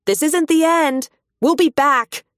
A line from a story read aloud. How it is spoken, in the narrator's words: shout out across the dusky pasture